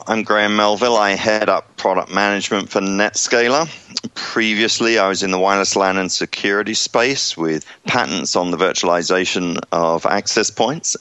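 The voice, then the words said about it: English accent. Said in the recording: “despite the English accent”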